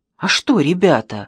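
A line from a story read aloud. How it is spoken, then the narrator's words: Exclaimed. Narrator (Russian): воскликнул Пашинцев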